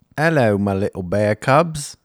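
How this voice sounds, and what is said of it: Put-on British accent. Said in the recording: “Can I go British? ... I want to do it British.”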